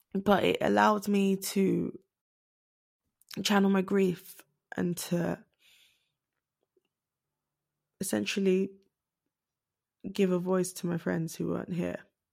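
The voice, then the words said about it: Emotional, choked-up voice. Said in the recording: “I'm going to get a bit emotional.”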